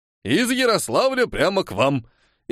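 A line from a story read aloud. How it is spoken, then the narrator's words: Chuckling. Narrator (Russian): И вновь хохотнул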